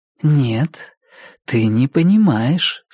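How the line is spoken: Calm. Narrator (Russian): спокойно ответила Рози

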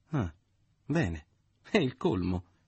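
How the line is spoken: Exclaimed. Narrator (Italian): esclamò

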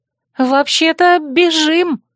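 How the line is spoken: Alarmed shout. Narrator (Russian): закричала я, заметив приближающихся лисов

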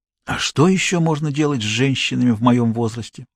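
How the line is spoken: Sighing. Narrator (Russian): вздохнул Кричко

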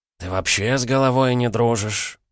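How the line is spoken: Tired question. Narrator (Russian): устало поинтересовался он

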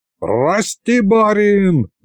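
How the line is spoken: Wailing. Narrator (Russian): завопил Пашка

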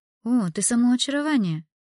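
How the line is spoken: Exclamation. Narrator (Russian): воскликнула Эмилия

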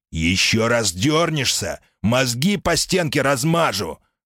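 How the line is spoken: Shouting threat. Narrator (Russian): крикнул он одному из механиков

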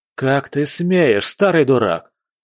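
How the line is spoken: Guard growling. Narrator (Russian): зарычал стражник

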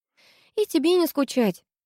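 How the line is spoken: Sighing. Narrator (Russian): вздохнула я

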